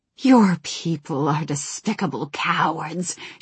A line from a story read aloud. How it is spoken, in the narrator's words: she hissed